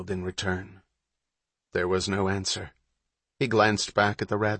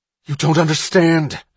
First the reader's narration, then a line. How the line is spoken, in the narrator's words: Hatch cried